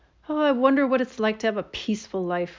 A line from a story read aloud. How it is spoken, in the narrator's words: Ron sighed